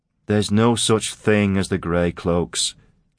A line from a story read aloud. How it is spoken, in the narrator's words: Keel told him wearily